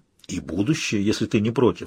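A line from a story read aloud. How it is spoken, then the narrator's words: Trembling voice. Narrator (Russian): сказал дрогнувшим голосом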